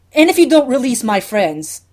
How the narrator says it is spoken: the Doctor shouts over them

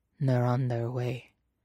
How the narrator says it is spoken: Nandor rasps

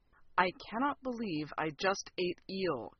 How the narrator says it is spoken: Kowalski murmured in my ear

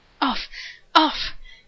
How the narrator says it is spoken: Shepherd panted

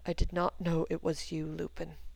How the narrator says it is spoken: he said quietly

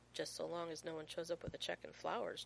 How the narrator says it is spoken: John mumbles

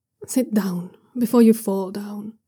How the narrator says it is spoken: he says gently

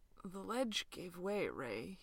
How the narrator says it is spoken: he rasped

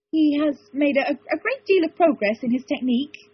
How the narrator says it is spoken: he said feebly

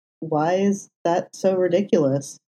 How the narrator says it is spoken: He said, his voice small

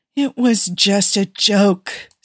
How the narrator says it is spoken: Steve whined

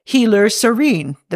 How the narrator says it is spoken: the man says

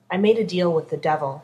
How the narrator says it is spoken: she said flatly

